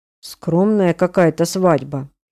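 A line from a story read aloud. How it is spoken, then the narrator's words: Muttering. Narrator (Russian): бормочу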